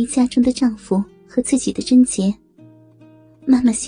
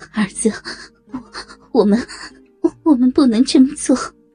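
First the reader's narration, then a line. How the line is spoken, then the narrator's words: Shaken mother, panting. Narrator (Chinese): 妈妈浑身剧震，喘着气说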